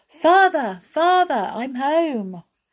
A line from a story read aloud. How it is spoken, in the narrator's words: Pinocchio cried